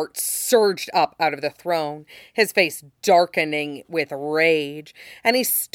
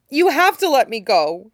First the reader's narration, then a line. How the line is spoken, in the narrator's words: he added, so desperately that he was actually yowling